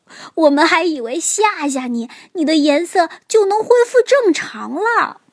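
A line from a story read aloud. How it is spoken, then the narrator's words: Shouting. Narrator (Chinese): 猴子和比尾蒙冲变色龙大喊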